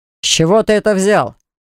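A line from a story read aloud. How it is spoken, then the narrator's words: Growled. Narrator (Russian): прорычал Баграт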